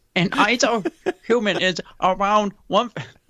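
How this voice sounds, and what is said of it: Fake Asian accent, badly done. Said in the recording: “you're doing some sort of Asian accent ... It's horrible. I'm dressed as Jesus doing a fake Asian accent.”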